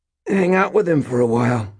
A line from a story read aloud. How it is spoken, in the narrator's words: Mort gasped